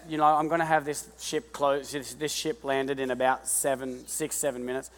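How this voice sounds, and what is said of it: Speaks with a regional accent. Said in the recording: “I said ship. Yeah, it sounded bad, but it was my accent”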